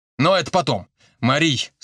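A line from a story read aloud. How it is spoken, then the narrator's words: Suddenly serious. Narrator (Russian): снова обратился он к жене, резко серьезнее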